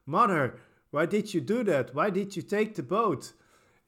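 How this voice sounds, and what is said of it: Imitates bad movie acting. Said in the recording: “the acting is very bad ... I'm honestly doing a very good impression. Acting is so bad.”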